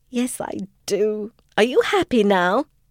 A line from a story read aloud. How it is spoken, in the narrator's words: Diana began to laugh and confessed